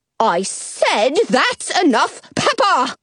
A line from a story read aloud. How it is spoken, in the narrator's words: the Duchess repeats, her voice rising